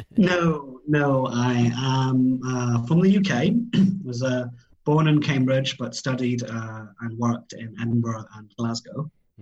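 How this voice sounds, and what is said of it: British accent. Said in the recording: “listening to your accent, you're not Chinese ... that's my UK accent”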